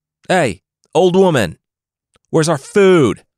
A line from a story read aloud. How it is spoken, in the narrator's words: the group's leader shouted